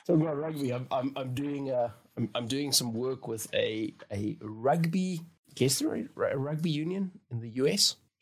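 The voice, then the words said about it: South African accent. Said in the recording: “you are from South Africa. ... that's the only accent I know.”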